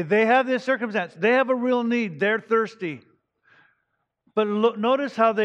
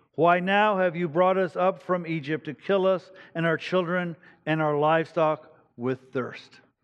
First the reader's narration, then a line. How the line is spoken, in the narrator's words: they grumbled against Moses and said